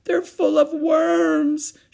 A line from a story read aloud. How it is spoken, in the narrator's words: she sobbed